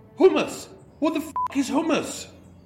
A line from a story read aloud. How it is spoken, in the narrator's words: a homeless man digging through the bins and yelling